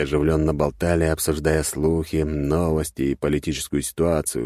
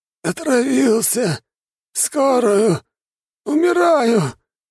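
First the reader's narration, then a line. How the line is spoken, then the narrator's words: Hoarse, dying croak. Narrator (Russian): прохрипел тот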